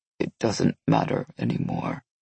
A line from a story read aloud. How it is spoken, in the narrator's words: Lenny said quietly